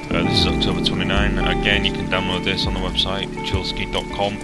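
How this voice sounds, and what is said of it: Deep, slightly sore-throated voice. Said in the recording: “Got a bit of a sore throat, so my voice may be a little bit deep”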